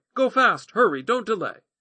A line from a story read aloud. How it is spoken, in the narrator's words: Jonathan cried after the boy